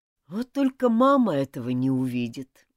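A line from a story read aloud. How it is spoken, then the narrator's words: Sighing. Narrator (Russian): вздохнул Джулиан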